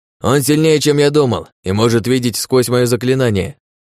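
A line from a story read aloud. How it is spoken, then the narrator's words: Shouted. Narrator (Russian): выкрикнул Ратмир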